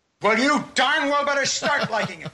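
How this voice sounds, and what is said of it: Raised, angry voice. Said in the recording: “Don't raise your voice!”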